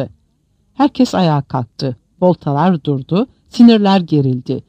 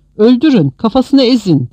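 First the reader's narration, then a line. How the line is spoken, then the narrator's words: Group shouting. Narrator (Turkish): diye bağırarak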